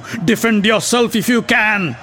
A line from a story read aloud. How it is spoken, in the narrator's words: yelled Satyaki as he hurled his mace at Bhurisrava